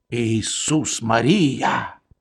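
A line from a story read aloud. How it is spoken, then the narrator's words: Sigh. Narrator (Russian): вздохнул капрал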